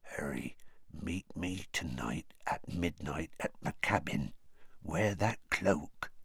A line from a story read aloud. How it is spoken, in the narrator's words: said in a whisper so low that only Harry could hear it